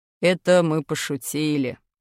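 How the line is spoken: Father muttering. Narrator (Russian): пробурчал папа

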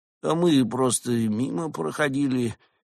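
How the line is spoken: Uncertain. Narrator (Russian): неуверенно сказал Куала

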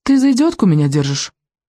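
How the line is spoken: Offended girl snapping. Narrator (Russian): огрызнулась девочка, оскорбленная в своих лучших чувствах

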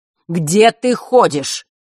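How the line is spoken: Astonished shout. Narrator (Russian): изумленно выкрикнул он

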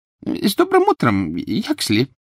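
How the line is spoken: Servile squeak. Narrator (Russian): Кто-то, выжидающий лифта в толпе, раболепно пискнул

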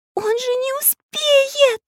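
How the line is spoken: Frightened scream. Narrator (Russian): испуганно закричала Настенька

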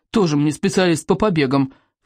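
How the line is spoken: Scornful snort. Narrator (Russian): фыркнул Рыбьенок

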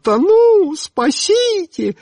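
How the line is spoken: Shrieking. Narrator (Russian): завизжала

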